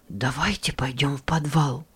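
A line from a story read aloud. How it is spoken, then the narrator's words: Anxious whisper, young boy. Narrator (Russian): тревожным шепотом предложил младший Джейк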